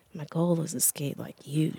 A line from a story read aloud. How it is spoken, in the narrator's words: she said, almost under her breath